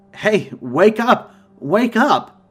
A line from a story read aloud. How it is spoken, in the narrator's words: I exclaimed, loudly, with fear in my voice